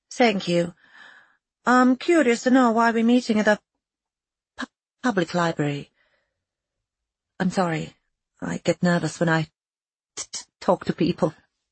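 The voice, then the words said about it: Unusual Balkan-sounding accent. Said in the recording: “It is an interesting accent you have... Is that from the Balkans?... It is very unique.”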